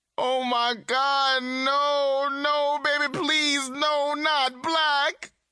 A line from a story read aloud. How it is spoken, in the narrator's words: she screamed